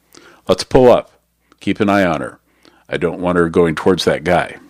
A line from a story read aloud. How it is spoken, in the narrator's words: said